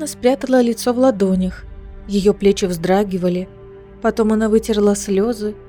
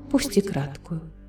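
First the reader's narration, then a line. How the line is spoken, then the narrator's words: Whisper. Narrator (Russian): прошептала Элиана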